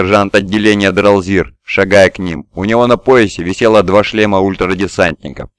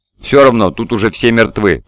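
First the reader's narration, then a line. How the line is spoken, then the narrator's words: Muttered. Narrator (Russian): пробормотал Буриас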